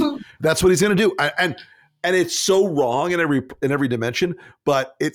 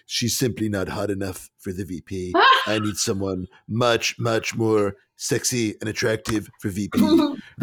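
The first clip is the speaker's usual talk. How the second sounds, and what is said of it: Imitates another person's voice. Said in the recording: “your imitation of Trump ... It's not very good, I admit it. ... No, it's pretty good.”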